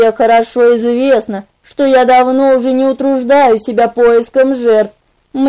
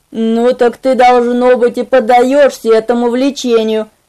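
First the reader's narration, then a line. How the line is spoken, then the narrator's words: Angry grumble. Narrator (Russian): сердито проворчал Арман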